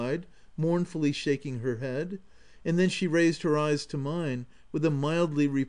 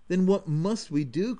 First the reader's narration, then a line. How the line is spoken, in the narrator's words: cried I passionately